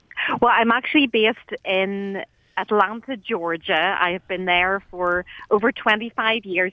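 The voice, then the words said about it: Lilting Irish accent. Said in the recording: “beautiful, lilting Irish accent”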